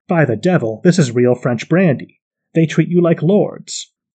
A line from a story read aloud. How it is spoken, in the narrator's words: Napoleon exclaimed